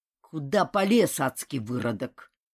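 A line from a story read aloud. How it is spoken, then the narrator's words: Low menacing voice. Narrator (Russian): низким, угрожающим голосом спросил Сихан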